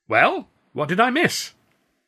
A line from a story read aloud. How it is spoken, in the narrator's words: I said loudly, and in a very different voice